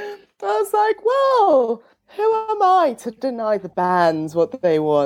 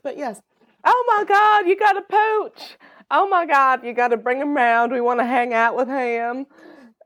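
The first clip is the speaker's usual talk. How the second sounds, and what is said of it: Put-on Southern accent. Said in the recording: “they don't sound Southern, like, but that's the accent I'm going to do today. This is the accent you are getting.”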